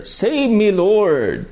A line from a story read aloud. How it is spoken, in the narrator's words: he cried